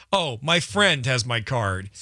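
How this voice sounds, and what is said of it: Sarcastic stress on one word. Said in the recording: “I italicized the friend... I think everyone heard it in my voice”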